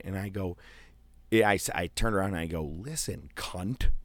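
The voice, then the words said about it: Whispering. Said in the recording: “I'm whispering right now, like someone's near me”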